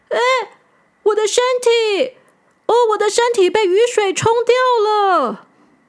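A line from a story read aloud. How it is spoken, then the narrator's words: Sudden shout. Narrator (Chinese): 小扑突然大叫出来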